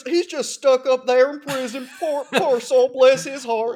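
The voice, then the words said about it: Put-on Southern accent. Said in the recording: “I don't know why I say that with a southern accent.”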